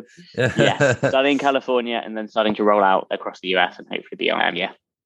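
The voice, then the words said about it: Softened London English accent. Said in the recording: “I hear an accent in your voice... Originally from London. Yeah, I don't quite merge with the American. Although apparently it's softened over time”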